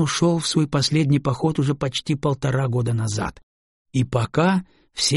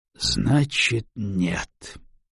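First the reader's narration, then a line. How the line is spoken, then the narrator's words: Gloomy reply. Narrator (Russian): мрачно отозвался Гарус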